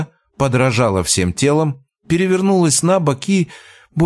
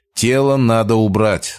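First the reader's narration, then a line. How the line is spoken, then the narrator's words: Calm summing up. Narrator (Russian): спокойно подытожил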